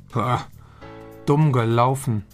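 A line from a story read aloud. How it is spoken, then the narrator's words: Plain. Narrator (German): sagt Matze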